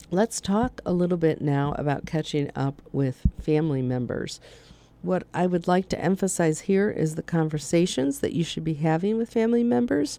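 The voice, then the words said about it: Hoarse, strained voice. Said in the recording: “Kind of losing my voice”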